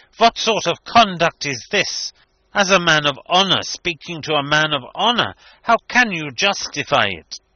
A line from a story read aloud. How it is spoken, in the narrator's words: he exclaimed indignantly